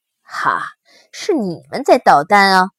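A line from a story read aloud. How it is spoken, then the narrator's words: Laughing. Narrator (Chinese): 二郎笑着说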